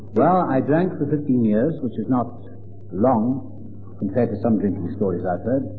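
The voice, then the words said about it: Welsh accent. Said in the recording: “As you can tell by my accent, I'm from across the water. I'm Welsh.”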